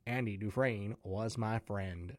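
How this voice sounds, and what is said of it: Bad Morgan Freeman impression. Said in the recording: “I wish I knew how to do a Morgan Freeman impression ... No, terrible, terrible ... my bad Morgan Freeman impression”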